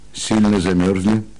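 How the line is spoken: Plain. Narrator (Russian): спросил он

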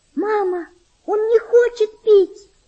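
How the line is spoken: Desperate child's scream. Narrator (Russian): с отчаянием закричала девочка

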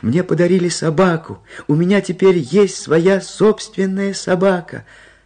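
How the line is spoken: Child shouting loudly. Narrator (Russian): Малыш громко крича

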